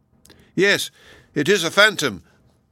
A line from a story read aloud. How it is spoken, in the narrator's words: cried Donatello with a shudder